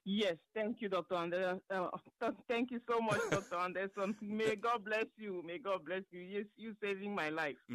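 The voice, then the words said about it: Cameroonian accent. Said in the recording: “What country are you from originally? I can hear that accent. Cameroon.”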